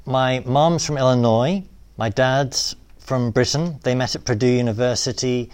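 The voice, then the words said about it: British accent. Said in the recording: “this funny British accent”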